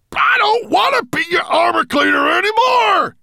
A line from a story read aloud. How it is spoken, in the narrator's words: he shouted into Nettlebrand's ear